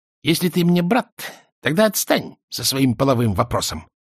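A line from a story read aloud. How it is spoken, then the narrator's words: Angry, husky female voice. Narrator (Russian): сердито говорила она хрипловатым голоском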